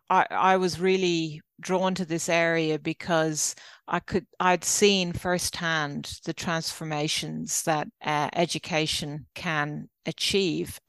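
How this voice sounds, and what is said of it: Irish accent. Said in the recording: “you probably tell by my accent, I'm not Australian, I'm actually Irish”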